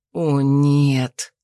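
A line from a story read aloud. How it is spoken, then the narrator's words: Almost silent moan. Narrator (Russian): Почти бесшумно простонал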